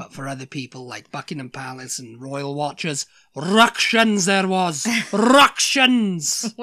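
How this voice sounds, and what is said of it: Put-on Welsh accent. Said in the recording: “it makes you speak in a Welsh accent”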